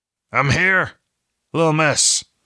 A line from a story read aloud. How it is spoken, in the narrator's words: Benjen said, his voice rough and gravelly